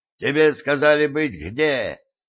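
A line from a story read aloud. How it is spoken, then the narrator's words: Growled. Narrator (Russian): рыкнул Варк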